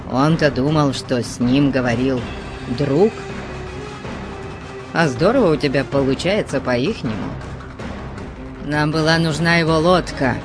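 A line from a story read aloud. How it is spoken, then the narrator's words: Grumbled. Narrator (Russian): проворчал Конан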